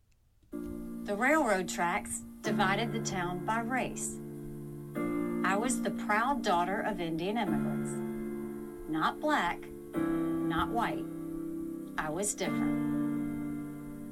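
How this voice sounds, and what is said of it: Southern twang accent. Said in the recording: “speaks with a Southern twang. ... she's from South Carolina”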